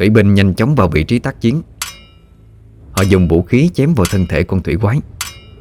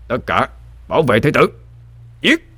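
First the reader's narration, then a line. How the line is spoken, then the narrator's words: Commanding shout. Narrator (Vietnamese): Thuyền trưởng quát lên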